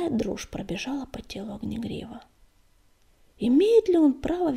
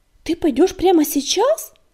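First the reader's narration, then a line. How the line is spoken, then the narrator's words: Frightened question, sandstorm. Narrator (Russian): испуганно спросила песчаная буря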